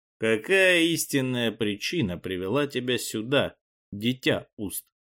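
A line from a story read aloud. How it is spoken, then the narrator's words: Plain. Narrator (Russian): спросил он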